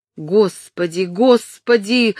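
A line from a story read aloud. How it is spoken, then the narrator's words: Desperate shout. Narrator (Russian): закричал в отчаянии Джон Болл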